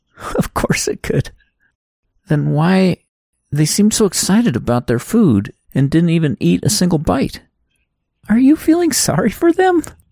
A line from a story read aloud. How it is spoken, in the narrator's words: Abigail chuckled again